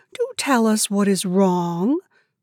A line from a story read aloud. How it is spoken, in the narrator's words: said Grandma kindly